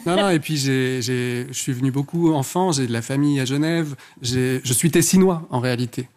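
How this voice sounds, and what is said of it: Strong Swiss-Italian accent in French. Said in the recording (French): “d'où l'accent ... C'est cet accent à couper au couteau ... Du lac de Lugano”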